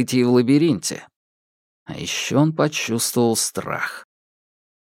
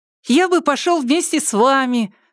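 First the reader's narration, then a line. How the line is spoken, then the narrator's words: Overly cheerful child voice. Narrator (Russian): сказал мальчик каким-то слишком уж веселым голосом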